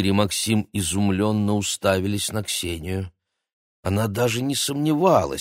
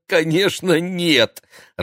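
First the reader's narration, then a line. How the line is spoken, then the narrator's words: Laughing. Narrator (Russian): рассмеялся Игорь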